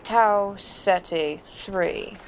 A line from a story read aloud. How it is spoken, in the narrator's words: McCoy replied slowly